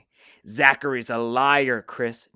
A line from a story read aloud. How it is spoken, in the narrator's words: Dane snarled